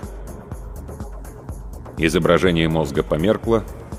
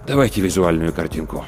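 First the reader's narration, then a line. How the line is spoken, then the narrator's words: Sigh, then speaking. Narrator (Russian): Рудольф Терентьевич вздохнул и сказал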